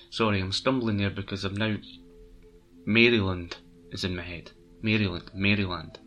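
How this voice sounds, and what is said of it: Scottish accent. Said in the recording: “with my Scottish accent”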